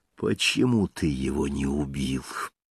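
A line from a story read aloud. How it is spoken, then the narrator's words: Hissed up close. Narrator (Russian): прошипела, вплотную приблизив к нему свое испитое лицо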